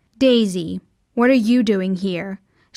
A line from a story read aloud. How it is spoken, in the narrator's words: she asked coldly